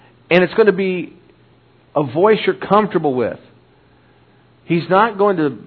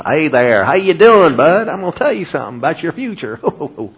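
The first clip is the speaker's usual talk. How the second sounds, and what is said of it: Put-on Texan accent. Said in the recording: “you're not going to hear somebody from Texas”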